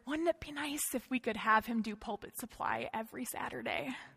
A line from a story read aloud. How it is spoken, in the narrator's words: they whisper